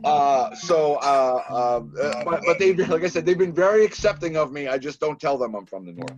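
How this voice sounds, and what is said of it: Boston accent. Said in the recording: “I was born in Massachusetts ... they kind of figure it out from the accent ... I'm from Boston”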